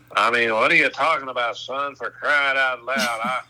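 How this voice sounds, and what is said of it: Impression of Phil Robertson. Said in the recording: “I can imitate Phil the best”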